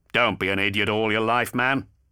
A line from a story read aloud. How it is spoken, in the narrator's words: snapped Raven